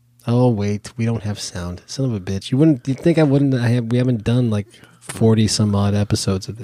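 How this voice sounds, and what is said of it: Deep, congested voice from a cold. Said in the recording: “these late night FM DJ tones that I have are brought to you by a head cold ... if I sound different, that's what it is ... It's just me with sinus pressure”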